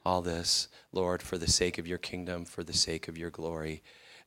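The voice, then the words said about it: Weak, strained voice. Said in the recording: “You can tell my voice is not quite here ... that my voice does not become a distraction”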